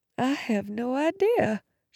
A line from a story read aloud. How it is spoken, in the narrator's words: she said faintly